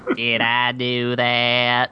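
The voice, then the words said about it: Bad impression of a nerdy sitcom character. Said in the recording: “That sounded like Hank Hill doing a it ... Hank Hill doing a bad Steve Urkel impression”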